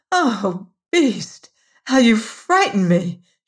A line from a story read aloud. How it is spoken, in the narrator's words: she cried